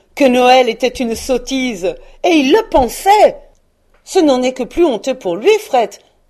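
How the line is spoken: Exclamation. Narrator (French): s'écria le neveu de Scrooge

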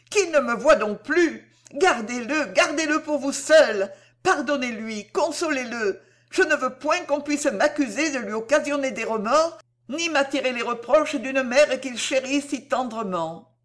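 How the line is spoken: Alarmed cry. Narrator (French): s'écria Cécile, extrêmement alarmée

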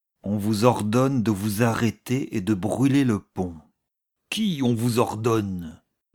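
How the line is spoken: Grumpy question. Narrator (French): demanda le colonel d'un air grognon

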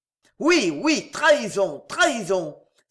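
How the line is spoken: Exclaiming. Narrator (French): s'écria George Douglas

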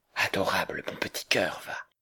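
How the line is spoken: Very quiet murmur. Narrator (French): murmura-t-il, mais tout bas à cause du voisin

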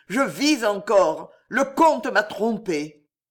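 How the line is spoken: Desperate exclamation. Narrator (French): s'écria-t-il avec l'accent du désespoir

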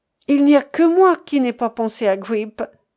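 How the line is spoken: Exclaiming with deep regret. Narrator (French): s'écria Bob avec l'accent d'un profond regret

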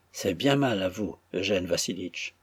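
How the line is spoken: Low murmur. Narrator (French): murmura-t-elle à voix basse

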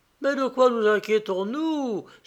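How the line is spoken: Woman exclaiming. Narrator (French): s'écria la femme

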